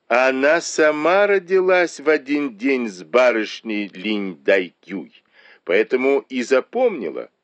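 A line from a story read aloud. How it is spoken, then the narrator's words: Loud, smiling. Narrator (Russian): Бао-Юй улыбнулся и громко произнес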